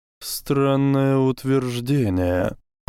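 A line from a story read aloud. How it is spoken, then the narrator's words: Drawling. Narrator (Russian): протянул Люциус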